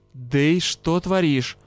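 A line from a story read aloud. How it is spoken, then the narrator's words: Hissed. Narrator (Russian): прошипел Юрао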